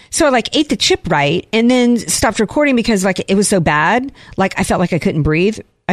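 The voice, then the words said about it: Valley Girl accent. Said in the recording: “I should probably do this in my Valley Girl accent.”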